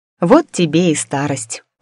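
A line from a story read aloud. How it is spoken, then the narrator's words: Sighing. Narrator (Russian): вздохнула я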